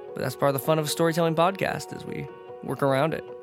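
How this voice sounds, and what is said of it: Weak, sniffly sick voice. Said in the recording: “My voice is a little gone. I've been a little sickly lately ... a little under the weather. Had to stifle my little snuffles”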